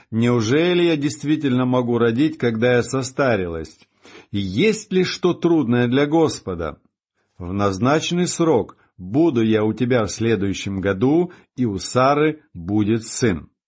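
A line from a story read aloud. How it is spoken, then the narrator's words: Laughing. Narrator (Russian): рассмеялась Сара, сказав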